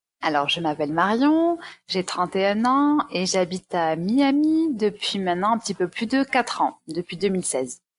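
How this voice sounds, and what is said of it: Southern French accent. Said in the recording (French): “Tu as un accent ... c'est bien l'accent du sud que tu entends.”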